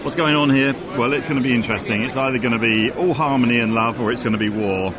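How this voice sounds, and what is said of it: Speaks with a nice accent. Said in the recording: “You had a nice accent.”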